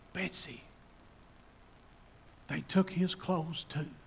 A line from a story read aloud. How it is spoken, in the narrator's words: whispered to her sister Betsy